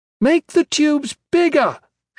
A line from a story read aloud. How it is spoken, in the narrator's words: she shouted and laughed, the barest edge on it